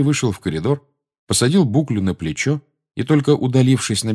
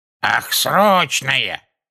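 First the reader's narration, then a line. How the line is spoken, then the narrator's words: Shrill reply. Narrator (Russian): пронзительным голосом отозвалась вторая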